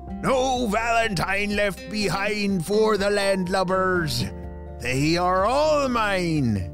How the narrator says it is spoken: Captain Cupid shouted

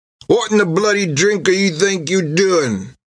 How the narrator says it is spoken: sputtered in a grammar only the drunken can master

